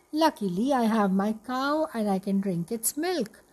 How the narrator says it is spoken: thought happily

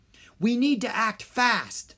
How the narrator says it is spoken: Rory cried

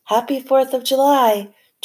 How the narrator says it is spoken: Turtle shouted

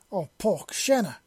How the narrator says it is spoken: exclaimed as she saw her new friend falling

